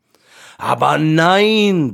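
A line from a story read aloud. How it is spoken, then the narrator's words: Lion roaring. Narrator (German): brüllte der Löwe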